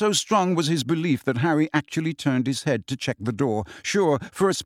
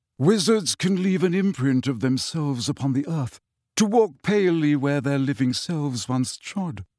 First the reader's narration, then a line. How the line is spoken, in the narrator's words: said Nick miserably